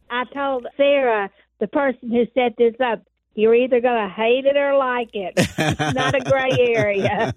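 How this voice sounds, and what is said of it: Speaks with a noticeable regional accent. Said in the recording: “I love the accent there.”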